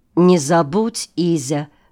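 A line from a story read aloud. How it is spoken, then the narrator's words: Plain. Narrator (Russian): говорит он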